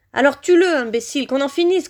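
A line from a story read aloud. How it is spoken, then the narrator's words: Shrill high-pitched shout. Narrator (French): cria Voldemort de sa voix suraiguë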